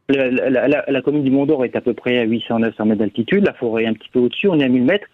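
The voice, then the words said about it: Slight southern French regional accent. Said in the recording (French): “il y a un petit accent, vous n'avez pas l'air vraiment auvergnat, vous, de naissance ... Je suis né à Nîmes”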